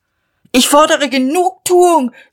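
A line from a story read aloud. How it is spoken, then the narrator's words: Shouted. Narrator (German): schrie er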